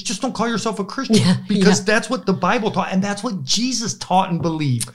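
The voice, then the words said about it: Raised, excited loud voice. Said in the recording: “I'm raising my voice. I get so excited on this. Calm me down.”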